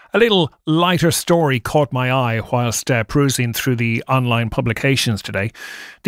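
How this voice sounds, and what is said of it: Irish accent. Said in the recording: “you listen to my accent, you're going to go, what? We know that he's Irish.”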